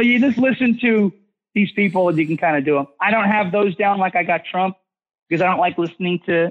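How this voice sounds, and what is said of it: Usual voice. Nothing is said of it.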